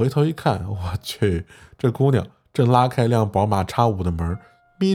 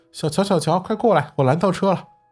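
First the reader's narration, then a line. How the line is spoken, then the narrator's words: Shouting. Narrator (Chinese): 突然他喊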